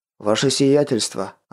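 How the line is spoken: Hoarse voice. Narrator (Russian): раздался в рубке хриплый голос Верта

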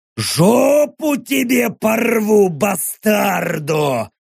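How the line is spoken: Howling from forest. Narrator (Russian): взвыли в лесу

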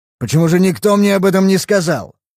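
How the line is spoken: Angry bark. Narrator (Russian): Он сердито рявкнул

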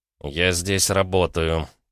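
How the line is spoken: Through gritted teeth. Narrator (Russian): процедил сквозь зубы Гаранин

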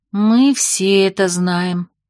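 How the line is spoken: Sighing. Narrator (Russian): вздохнула Августа

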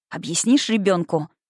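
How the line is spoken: Angry question. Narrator (Russian): Зло спросила я

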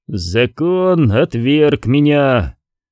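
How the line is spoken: Dull weary voice. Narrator (Russian): глухим, усталым голосом произнес принц Гайнор проклятый

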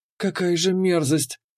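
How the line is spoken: Barely audible whisper. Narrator (Russian): еле слышно прошептала Кира

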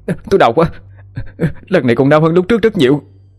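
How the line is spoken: Pained shout. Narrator (Vietnamese): Khải hét lên

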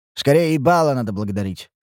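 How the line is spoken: Wry hmph. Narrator (Russian): хмыкнул я

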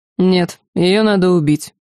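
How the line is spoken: Unyielding tone. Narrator (Russian): непреклонным тоном произнес Ланс

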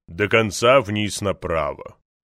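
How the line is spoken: Booming theatrical bass. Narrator (Russian): ответил раскатистым актерским басом

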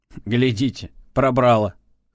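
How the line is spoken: Young man's snort. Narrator (Russian): хмыкнул молодой оперативник

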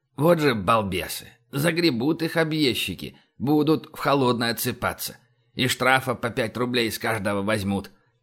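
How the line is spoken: Muttering. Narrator (Russian): Иван-моторист пробормотав

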